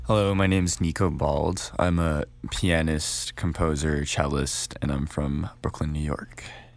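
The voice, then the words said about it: Radio-style speaking voice. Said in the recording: “I'm hearing the radio voice.”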